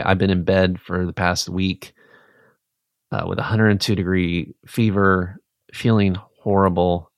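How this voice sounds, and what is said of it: Funky-sounding voice recovering from illness. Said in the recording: “my voice sounds a little funky ... I got the flu twice ... My voice is still finding its way on the road to recovery”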